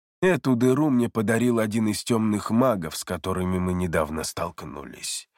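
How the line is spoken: Calm reply. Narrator (Russian): спокойно ответил Марион

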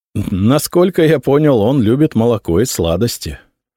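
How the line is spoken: Laughing. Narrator (Russian): рассмеялся я

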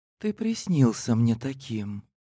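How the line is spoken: Whispered. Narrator (Russian): шептала мне иногда графиня Елена

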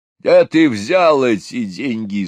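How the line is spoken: Angry bass voice. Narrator (Russian): спросил он сердитым басом

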